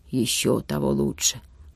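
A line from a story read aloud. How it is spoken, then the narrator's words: Grumble. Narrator (Russian): буркнул Витюня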